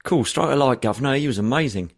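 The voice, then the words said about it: Put-on Cockney accent. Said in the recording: “in their in their Cockney accents”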